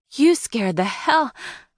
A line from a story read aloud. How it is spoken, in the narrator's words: I groaned, realizing I messed up again